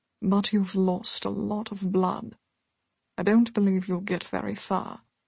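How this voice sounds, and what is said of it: Warm, refined British upper-class accent. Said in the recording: “A warm voice pronounced from the shadows at her back. Its accent, refined, distinct of the British upper class.”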